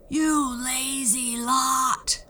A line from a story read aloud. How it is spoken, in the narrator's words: roared the giant